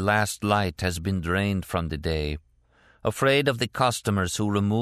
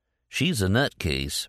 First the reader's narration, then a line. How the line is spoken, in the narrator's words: Leroy muttered